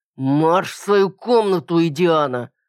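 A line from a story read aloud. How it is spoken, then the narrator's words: Father barking. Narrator (Russian): рявкнул отец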